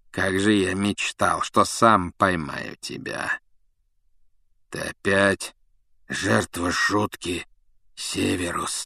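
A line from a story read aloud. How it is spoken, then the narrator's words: Hoarse wheeze. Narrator (Russian): прохрипел Блэк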